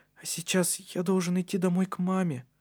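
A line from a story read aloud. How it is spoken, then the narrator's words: Uncertain. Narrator (Russian): произнес неуверенно Матиас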